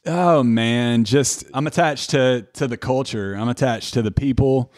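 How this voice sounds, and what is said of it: Tennessee Southern accent. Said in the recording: “my accent is probably the most Tennessee, the most 615 thing about me”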